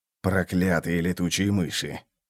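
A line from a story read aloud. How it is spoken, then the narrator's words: Fierce growl. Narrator (Russian): прорычал Вульф, свирепо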